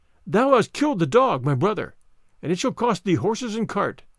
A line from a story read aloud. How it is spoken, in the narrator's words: the sparrow cried